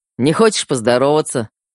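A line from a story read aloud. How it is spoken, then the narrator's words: Amused snort. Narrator (Russian): хмыкнул Феликс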